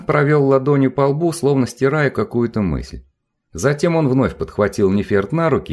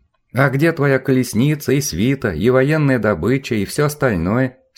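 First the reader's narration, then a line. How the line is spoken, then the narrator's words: Plain. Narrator (Russian): спросила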